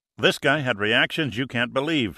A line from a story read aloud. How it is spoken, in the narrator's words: said Giordino